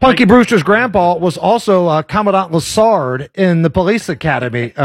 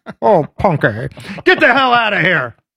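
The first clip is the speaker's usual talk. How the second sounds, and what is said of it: Old grandpa character voice. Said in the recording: “great Punky Brewster grandpa impression”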